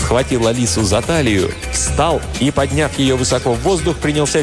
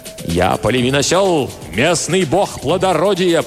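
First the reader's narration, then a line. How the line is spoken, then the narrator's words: Roaring. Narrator (Russian): проревел он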